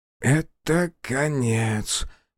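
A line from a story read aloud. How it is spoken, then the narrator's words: Whisper. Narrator (Russian): прошептал Фуэ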